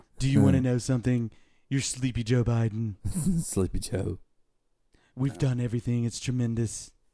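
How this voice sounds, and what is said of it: Poor Donald Trump impression. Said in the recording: “Your Trump impersonation sucks”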